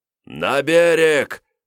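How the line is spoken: Commander's loud yell. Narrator (Russian): громко орал воевода

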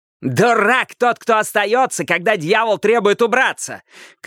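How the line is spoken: Shouted. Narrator (Russian): крикнул Каттер

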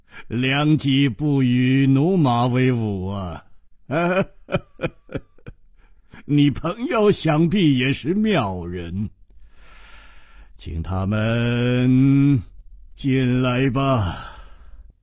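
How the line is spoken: Laughing. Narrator (Chinese): 秋瓷王笑着说

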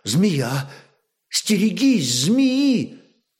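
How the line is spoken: Timeless voice, then exclaiming. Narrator (Russian): молвила она голосом, будто вытекавшим из самой вечности, и вдруг, отшатнувшись, воскликнула

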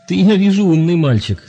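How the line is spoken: Laughing, young man. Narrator (Russian): засмеялся молодой человек

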